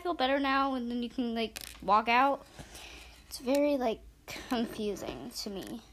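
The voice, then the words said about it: Tired voice that sounds irritable. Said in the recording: “I'm a little tired today, so if I sound angry, I'm not angry ... I just am tired”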